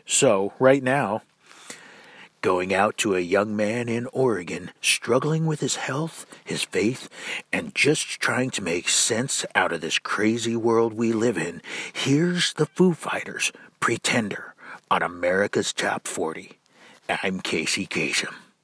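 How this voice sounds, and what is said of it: Bad Casey Kasem impression. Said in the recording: “probably the worst Casey Kasem impression ever”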